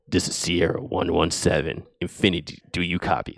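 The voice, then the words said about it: Bad Master Chief impression. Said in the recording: “my Master Chief impression. It's terrible. It's really bad.”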